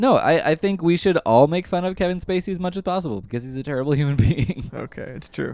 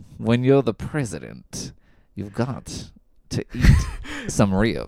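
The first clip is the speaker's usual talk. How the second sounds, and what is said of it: Imitates a TV character's voice. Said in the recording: “his impression isn't great anymore, but Frank Underwood from House of Cards. That was your Frank Underwood?”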